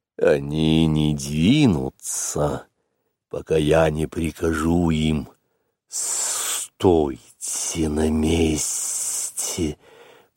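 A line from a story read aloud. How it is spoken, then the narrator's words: Hiss. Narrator (Russian): прошипел Каа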